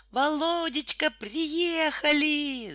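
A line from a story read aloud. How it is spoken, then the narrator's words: Loud scream. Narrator (Russian): завопила Наталья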